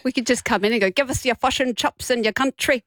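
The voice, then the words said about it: Badly done put-on accent. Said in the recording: “That's a terrible accent.”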